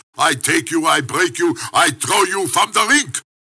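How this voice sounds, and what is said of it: Phony German accent. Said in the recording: “I used to talk with a phony German accent”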